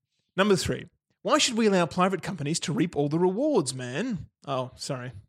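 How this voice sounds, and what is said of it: Usual voice. Nothing is said of it.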